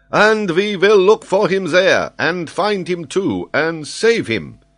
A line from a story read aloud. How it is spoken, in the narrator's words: exclaimed Paganel